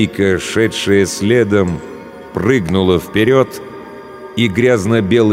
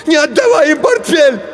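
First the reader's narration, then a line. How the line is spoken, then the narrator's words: Shout. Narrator (Russian): Женя закричал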